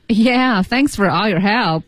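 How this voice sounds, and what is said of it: Sarcastic tone. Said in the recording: “Are you being sarcastic?”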